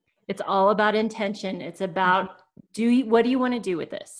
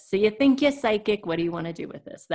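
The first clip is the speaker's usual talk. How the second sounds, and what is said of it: Put-on New York accent. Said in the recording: “That was my kind of New York accent.”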